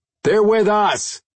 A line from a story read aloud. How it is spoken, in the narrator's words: Jason shouted